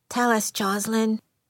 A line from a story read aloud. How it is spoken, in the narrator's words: Karen said just as softly